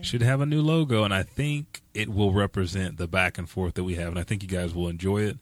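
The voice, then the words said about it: Hoarse, strained voice. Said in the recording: “As you can see, I'm losing my voice because I was jumping for joy and yelling all morning long”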